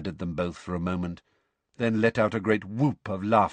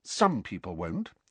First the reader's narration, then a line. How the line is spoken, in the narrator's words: said Hermione in a level voice